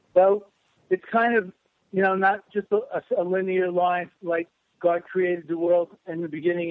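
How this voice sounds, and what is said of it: Brooklyn New York accent. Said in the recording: “a New York accent, you know, or well, Brooklyn, sort of a Brooklyn, New York accent”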